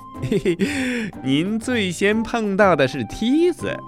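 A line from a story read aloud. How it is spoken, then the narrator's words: Laughing. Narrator (Chinese): 阿凡提笑着说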